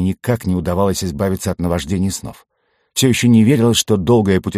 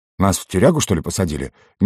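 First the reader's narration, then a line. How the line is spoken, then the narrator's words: Dull-witted mutter. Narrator (Russian): немного туповато пробормотал я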